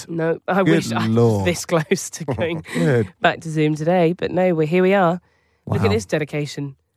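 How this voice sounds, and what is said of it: Voice sounds terrible, ill. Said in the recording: “You sound terrible. ... Don't be ill.”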